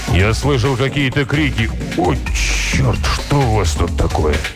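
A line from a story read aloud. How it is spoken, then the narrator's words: Even, flat voice. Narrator (Russian): Зак ответил ровным голосом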